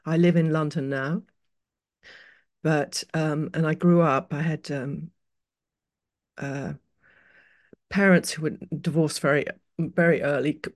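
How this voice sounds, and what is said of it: British accent with mixed influences. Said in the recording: “I'm British, as you with quite a lot of sprinkles of other things, as you can probably hear from my accent.”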